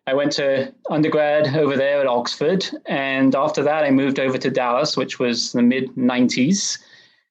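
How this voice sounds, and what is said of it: English accent, not Texan. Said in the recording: “you might be able to tell I don't have an accent from Texas. So I grew up in England.”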